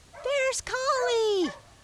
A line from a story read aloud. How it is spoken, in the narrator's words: cried the lambs joyfully